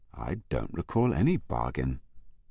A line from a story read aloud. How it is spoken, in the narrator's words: said Ashcroft quietly